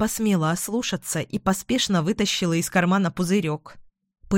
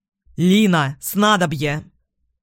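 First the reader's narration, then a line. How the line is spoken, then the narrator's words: Shouted. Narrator (Russian): крикнул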